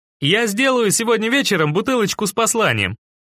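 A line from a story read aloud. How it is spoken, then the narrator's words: Cheerful hoarse voice. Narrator (Russian): радостно сипит Дугал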